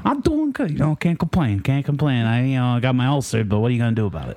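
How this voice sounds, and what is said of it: Put-on Italian mobster accent. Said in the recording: “the Italian mobster accent or whatever it is, the voice today.”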